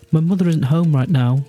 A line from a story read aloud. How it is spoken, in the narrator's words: she said, her voice shaking